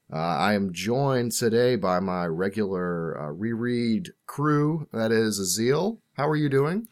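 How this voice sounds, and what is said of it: Hoarse smoky congested voice. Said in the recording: “coming at you with my smoky voice ... I have a cold ... you'll excuse a few coughs and hacking lung sounds you might hear”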